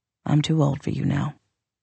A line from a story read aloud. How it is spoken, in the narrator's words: I said, very softly